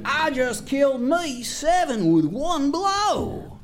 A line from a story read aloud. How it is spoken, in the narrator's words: When the townsfolk continued to ignore him, Jack hollered